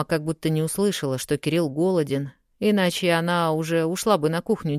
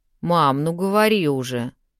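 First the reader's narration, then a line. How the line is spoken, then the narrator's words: Irritated. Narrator (Russian): раздраженно сказал Кирилл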